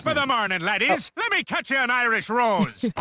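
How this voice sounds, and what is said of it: Put-on Irish accent. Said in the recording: “your best impersonation”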